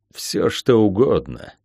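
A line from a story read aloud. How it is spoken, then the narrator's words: Gloomy. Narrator (Russian): мрачно сказал Всеслав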